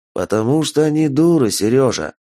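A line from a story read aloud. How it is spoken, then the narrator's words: Gentle, sad smirk. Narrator (Russian): ласково ответил Ицхак и печально усмехнулся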